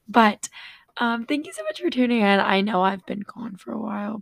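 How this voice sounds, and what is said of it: Raspy voice cutting in and out. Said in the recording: “my voice going a little bit in and out, raspy and stuff, because I cheered on Friday night and my voice just hasn't really gotten better since then”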